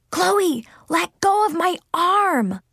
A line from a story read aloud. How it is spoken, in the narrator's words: I whisper shouted